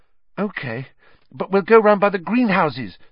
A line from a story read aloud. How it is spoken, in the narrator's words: said Hermione breathlessly